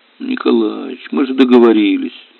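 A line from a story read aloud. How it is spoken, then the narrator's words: Sleepy, tired mutter. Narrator (Russian): Сонно и устало пробормотал Надежда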